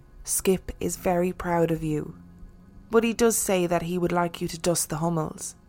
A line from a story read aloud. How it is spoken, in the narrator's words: the old lady whispered